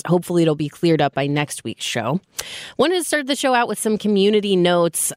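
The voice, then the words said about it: Voice sounds off from a cold. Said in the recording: “my voice is a little off this week. I have a cold ... it sounds worse than it is ... my voice sounds a little different”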